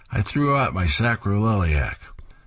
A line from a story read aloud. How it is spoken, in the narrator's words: Sarge moans again and replies